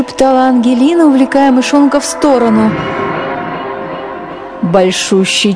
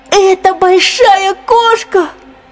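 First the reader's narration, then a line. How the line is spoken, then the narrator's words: Shout. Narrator (Russian): закричал Генри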